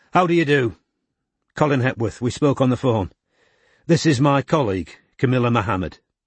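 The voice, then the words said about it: Strong Mancunian accent. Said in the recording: “had a strong Mancunian accent.”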